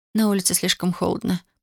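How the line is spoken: Muttering. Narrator (Russian): пробормотала Татьяна

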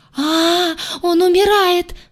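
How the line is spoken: Screaming. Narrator (Russian): завопила Айя

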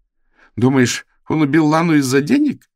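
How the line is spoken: Bursting out laughing. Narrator (Russian): Кейт расхохоталась

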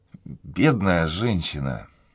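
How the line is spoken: Whisper, majordomo. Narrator (Russian): прошептал мажордом

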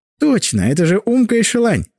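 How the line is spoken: Laughing. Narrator (Russian): засмеялся Глеб

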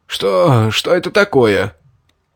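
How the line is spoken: Coughing, hoarse wheeze. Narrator (Russian): Закашлявшись, прохрипел

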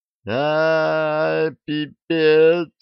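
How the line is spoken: Sobbing. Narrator (Russian): зарыдали

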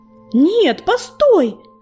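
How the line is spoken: Shouted by young tomcat. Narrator (Russian): крикнул молодой кот

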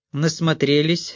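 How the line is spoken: Worried, tired question. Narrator (Russian): спросил Грайер, как всегда озабоченный и устало

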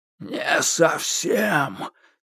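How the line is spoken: Heavy creaking voice. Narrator (Russian): тяжело проскрипел

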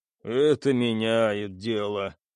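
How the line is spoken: Grim joke. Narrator (Russian): мрачно пошутил Стас

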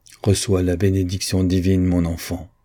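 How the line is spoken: Solemn tone. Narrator (French): dit-il d'un ton solennel

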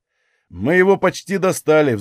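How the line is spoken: Sighing. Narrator (Russian): вздохнул Тессарий

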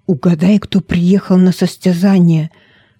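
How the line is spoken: Whisper. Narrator (Russian): шепнул я

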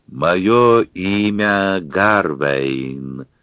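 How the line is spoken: Slow, deliberate speech. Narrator (Russian): раздельно и медленно проговорил человек-жерть

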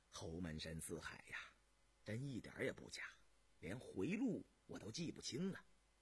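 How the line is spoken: Relieved, smiling. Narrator (Chinese): 这时吊得老高的心才算放了下来，迷迷糊糊的 才笑道

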